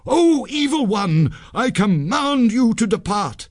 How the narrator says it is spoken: Sanjay cried

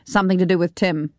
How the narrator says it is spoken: Malcolm said

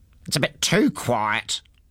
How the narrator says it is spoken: he grumbled to himself

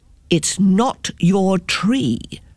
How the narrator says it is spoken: said the men

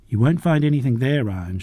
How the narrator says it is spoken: she said

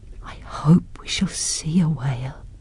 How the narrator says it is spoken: whispered Nancy

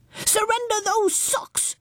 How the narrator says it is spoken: yelled Baby Bumble

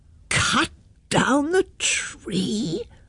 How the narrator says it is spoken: roared the mayor

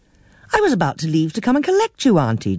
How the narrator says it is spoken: exclaimed

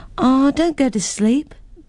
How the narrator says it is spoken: begged Jennifer

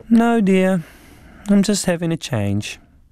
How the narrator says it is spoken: my mother stayed strangely calm and just replied dreamily

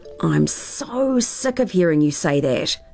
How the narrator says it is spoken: groaned Tara

